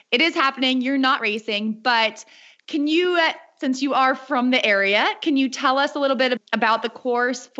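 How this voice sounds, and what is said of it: American accent. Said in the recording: “please excuse my American accent”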